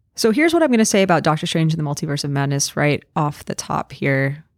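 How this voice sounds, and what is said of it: Slightly hoarse, off-sounding voice. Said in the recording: “my voice sounds a little bit off on this recording. I am currently getting over some laryngitis.”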